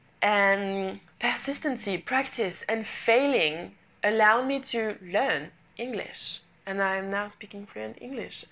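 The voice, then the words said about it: Non-native English accent. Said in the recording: “I was learning English ... my English isn't perfect, my accent isn't perfect”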